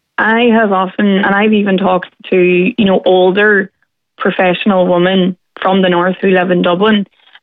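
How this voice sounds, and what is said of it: Northern Irish accent. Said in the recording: “the Northern accent is seen as intimidating... the way we say something... it's just the way we talk”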